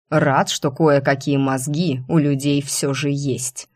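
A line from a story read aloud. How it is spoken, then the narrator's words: Displeased hiss. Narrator (Russian): недовольно прошипел брюнет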